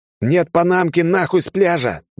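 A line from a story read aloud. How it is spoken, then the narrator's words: Yelling. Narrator (Russian): заорал я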